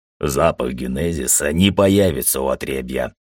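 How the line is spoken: Grumbled. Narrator (Russian): проворчал Фарук

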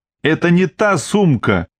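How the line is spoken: Flustered outcry. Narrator (Russian): выкрикнула, покрываясь пятнами, Мила

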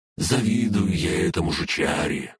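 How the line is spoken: Grumbled. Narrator (Russian): проворчала Фая

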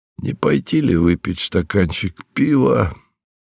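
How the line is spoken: Indifferent question. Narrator (Russian): спросил Джо равнодушным голосом, потому что им уже овладело праздничное безразличие

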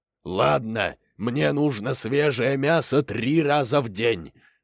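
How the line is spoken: Roaring lion. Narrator (Russian): проревел лев

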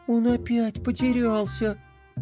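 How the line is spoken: Upset sigh, princess. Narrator (Russian): Расстроенно вздохнула принцесса

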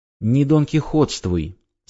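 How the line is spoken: Calm wife. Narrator (Russian): спокойно сказала жена

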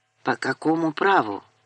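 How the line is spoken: Quiet. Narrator (Russian): так же тихо сказала она

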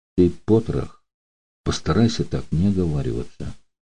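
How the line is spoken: Calm stranger's voice. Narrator (Russian): спокойно произнес незнакомец

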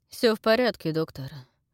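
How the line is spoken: Rude interruption. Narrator (Russian): грубо прервал шериф

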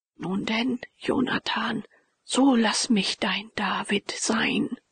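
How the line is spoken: Quiet, painfully broken voice. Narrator (German): sagte leise mit schmerzlich gebrochener Stimme

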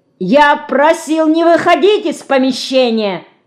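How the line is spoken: Yelled. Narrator (Russian): заорал

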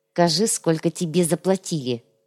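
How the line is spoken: Through gritted teeth. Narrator (Russian): сквозь зубы предложил Цукрам

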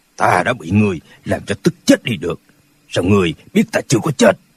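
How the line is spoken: Cold. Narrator (Vietnamese): Lão mập lùn lạnh lùng nói

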